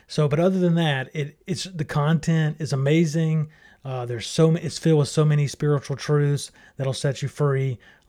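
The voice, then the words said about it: Strained voice from being sick. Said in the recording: “I was a little bit sick, so my voice is kind of struggling with that a little bit”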